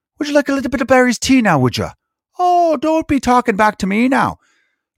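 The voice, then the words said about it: Boston-Irish old grandmother accent. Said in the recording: “weird Boston / old Irish grandmother”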